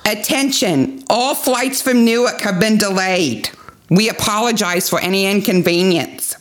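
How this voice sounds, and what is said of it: Exaggerated New York accent. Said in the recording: “I am clearly from New York. ... It's like a Saturday Night Live New York accent. ... It's so over the top.”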